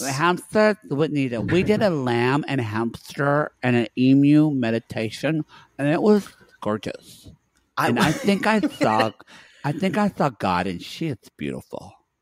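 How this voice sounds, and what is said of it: Put-on character accent. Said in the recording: “This is my favorite accent of yours. ... it kind of hurts my face to do Therese, but I have to because of her lips.”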